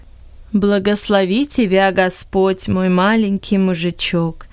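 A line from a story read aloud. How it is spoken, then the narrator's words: Plain. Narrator (Russian): сказала сестра Иронс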